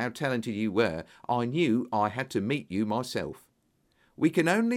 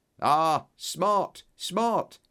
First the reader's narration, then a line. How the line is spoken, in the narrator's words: he cried delightedly